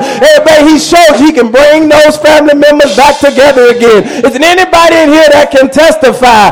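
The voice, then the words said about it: Preacher shouting. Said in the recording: “I'm shouting over what he has done.”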